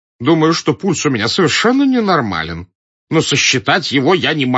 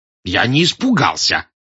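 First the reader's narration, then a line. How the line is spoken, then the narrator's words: Indignant exclamation, short-sighted man. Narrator (Russian): с негодованием воскликнул близорукий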